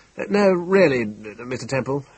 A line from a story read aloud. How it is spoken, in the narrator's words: exclaimed Dr